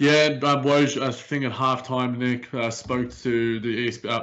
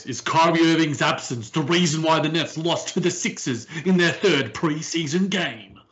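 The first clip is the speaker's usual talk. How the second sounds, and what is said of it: Mock sports-debate TV host voice. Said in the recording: “in my best first take voice”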